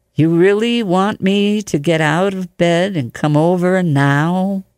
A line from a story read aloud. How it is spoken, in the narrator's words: He said slowly